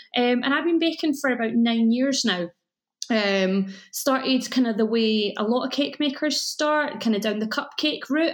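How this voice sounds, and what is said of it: Mild, mellow Scottish accent. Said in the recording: “you can probably tell from my accent that I live in Scotland ... your accent's yeah, not too thick ... It's quite a nice mellow accent ... I think I put my phone voice on sometimes”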